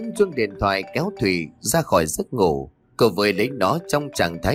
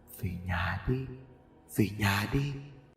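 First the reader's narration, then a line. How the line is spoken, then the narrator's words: Whispered in ear. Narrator (Vietnamese): thì thầm vào tai của cô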